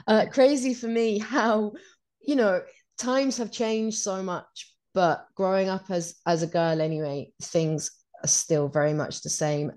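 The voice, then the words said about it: Hoarse, fading voice. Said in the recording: “I'm losing my voice a bit”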